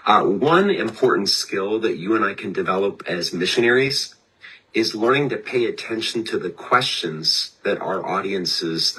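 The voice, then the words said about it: Sick, strained voice. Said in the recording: “I apologize for my voice. I'm a victim of the COVID resurgence day four here”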